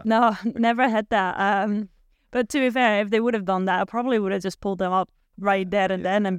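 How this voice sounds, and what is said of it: Slight Scottish twang in English. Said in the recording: “You've got a little bit of a Scottish twang, I think, in your English”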